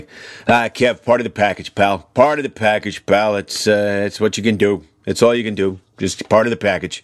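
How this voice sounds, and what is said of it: Imitates another person's voice. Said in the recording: “do a wonderful impression of your father”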